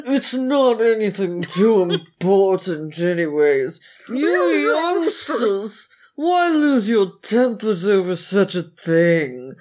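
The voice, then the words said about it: Smarmy, slimy character voice. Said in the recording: “he's putting so fucking smarmy. Which of us can do the smarmier voice? ... Which of us has a slimier slime voice?”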